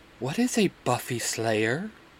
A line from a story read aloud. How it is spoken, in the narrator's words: Castiel whispers